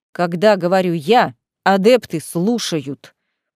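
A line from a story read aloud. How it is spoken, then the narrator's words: Growling. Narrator (Russian): прорычал Павел Николаевич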